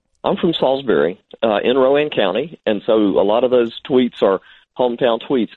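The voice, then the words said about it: North Carolina regional accent. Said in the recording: “you probably can tell from ... accent ... You are a native to the area ... Piedmont, North Carolina”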